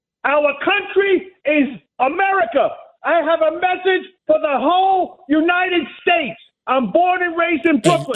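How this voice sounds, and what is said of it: Yelling angrily. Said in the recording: “Why are you yelling?”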